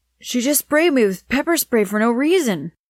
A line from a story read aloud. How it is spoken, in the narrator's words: the man cried out in pain